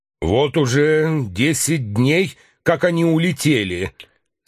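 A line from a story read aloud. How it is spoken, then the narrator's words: Plain. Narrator (Russian): сказал лейтенант Бронсфильд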